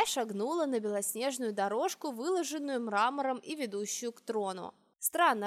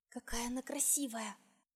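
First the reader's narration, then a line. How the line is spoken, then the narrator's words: Distant whisper. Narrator (Russian): послышался шепот откуда-то из-за колонн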